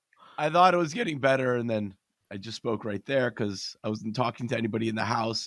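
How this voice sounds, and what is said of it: Sick, rough-sounding voice. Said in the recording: “Terrible, as you can probably tell from my voice ... under the weather”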